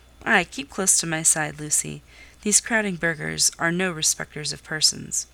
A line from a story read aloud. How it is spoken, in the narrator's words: saying in his kind voice